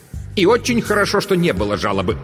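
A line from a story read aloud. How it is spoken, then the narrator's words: Clipped, emphatic. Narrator (Russian): отчеканила Дурцева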